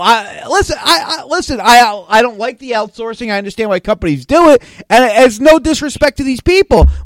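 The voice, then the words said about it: New York New Jersey accent. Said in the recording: “my New York, New Jersey accent is hard to understand”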